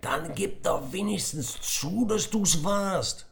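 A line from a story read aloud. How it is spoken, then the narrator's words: Loud shouting. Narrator (German): schrie Tom lauthals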